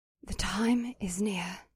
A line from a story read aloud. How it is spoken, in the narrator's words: Lilith whispered into my ear